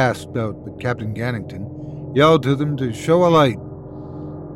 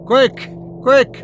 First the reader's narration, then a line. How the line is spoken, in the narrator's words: I shouted